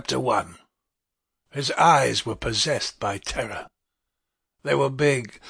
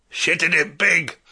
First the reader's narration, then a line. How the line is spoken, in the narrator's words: a voice boomed in suddenly